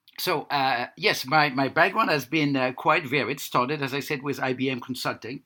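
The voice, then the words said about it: Noticeable foreign accent. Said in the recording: “can you understand my accent? ... I had an accent reduction coach”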